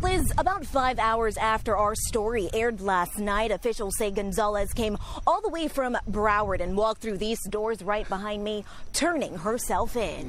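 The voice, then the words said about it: Broadcast American news accent. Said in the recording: “I hate that fucking broadcast American. I fucking hate that accent.”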